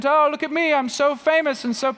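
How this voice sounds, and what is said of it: Mock British accent impression. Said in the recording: “got a British accent.”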